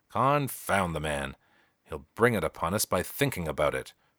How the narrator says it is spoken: growled the young father

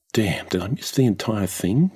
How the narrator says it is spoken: muttered the young woman

